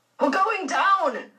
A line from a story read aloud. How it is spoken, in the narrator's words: a man shouted